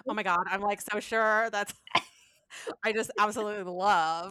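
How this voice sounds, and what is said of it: Valley Girl voice. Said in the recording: “in a Valley Girl voice”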